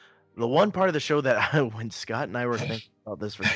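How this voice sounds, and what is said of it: Usual voice. Nothing is said of it.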